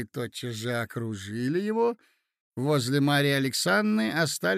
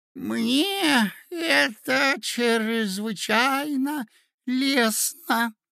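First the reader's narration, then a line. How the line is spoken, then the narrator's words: Lisping, prince. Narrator (Russian): шепелявил князь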